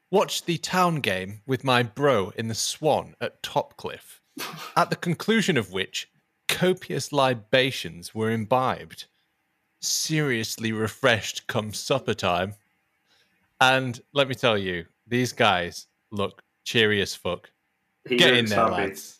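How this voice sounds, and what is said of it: Put-on posh accent. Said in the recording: “I don't know if I should do a posh accent for this ... Posh accent?”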